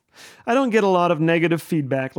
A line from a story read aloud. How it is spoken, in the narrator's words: laughs Ken